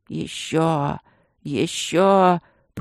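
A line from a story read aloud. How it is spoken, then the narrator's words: Pleading hoarse rasp. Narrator (Russian): просительно хрипел шаман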